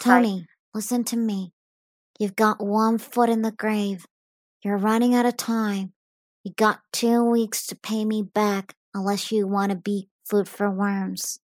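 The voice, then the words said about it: Gruff mafia mobster film impression. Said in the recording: “that was my best impression of Marlon Brando in The Godfather ... playing the part of obviously a mobster, a person who's in the mafia”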